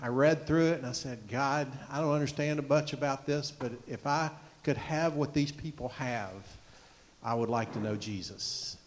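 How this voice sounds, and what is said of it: Southern US accent. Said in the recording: “I have a southern accent, y'all. I'm from Georgia.”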